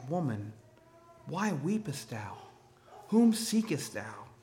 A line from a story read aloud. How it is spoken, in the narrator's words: he says softly and tenderly